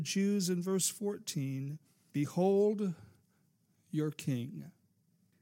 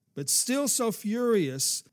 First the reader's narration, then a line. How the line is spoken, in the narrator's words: the Jews cried out